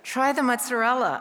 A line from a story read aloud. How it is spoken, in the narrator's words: I say in the most soothing voice I can muster